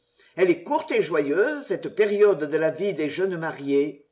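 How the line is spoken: Sighing wise elder. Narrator (French): ajouta en soupirant le sage de Craig Fernie

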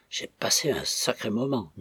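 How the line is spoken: Murmured. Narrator (French): murmura-t-il

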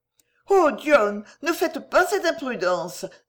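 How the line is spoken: Exclaimed. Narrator (French): s'écria Mistress Denver

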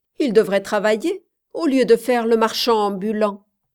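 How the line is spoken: Dry, curt remark. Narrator (French): remarquai-je sèchement

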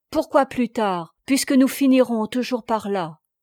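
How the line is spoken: Pleading, disappointed, more abrupt. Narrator (French): Il sembla désappointé, un peu froissé, et il reprit d'un ton toujours suppliant mais plus brusque

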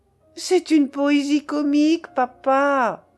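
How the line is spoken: Joyful exclamation. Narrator (French): s'écria-t-elle, toute joyeuse de son idée enfantine

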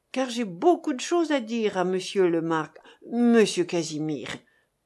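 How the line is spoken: Sighed. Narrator (French): soupira monsieur Hilaire

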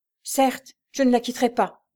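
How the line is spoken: Exclaiming. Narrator (French): s'écria l'évadé de Clermont

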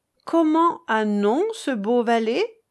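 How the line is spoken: Plain. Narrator (French): demanda-t-elle

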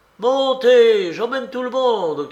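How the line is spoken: Shouting again. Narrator (French): cria de nouveau Mikolka

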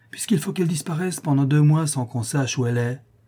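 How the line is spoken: Exclaimed. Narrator (French): s'écria la Chouette

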